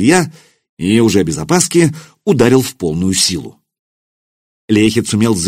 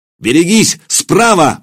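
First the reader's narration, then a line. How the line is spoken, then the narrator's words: Roaring. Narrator (Russian): взревел он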